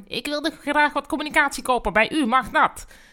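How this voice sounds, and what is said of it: Shouted, undefinable put-on accent. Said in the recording (Dutch): “schreeuwde iemand met een ondefinieerbaar accent ... je moet beter oefenen met je stemmetje”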